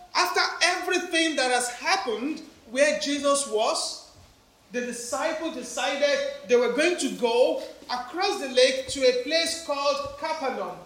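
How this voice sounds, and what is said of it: Strong African accent. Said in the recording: “Don't mind my African accent. It's so strong”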